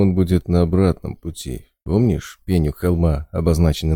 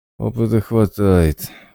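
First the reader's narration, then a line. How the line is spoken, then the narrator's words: Gloomy agreement. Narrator (Russian): уныло согласился сталкер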